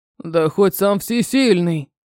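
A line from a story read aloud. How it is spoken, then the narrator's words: Harsh growl. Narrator (Russian): прорычал, резче, чем нужно было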